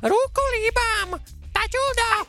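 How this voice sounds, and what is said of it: High cartoon puppet voice, attempted. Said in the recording (Czech): “mně to vůbec nejde jako ten hlas... Zkus ho napodobit... Reálně já jsem takový Mickey Mouse mi přijde”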